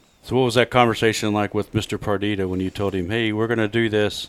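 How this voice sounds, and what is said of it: Usual voice. Nothing is said of it.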